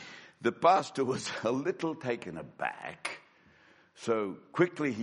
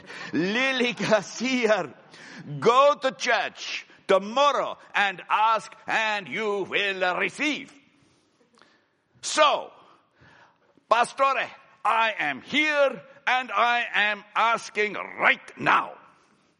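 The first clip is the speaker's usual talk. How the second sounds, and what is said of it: Put-on Mexican accent. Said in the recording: “the Lord has a Mexican accent”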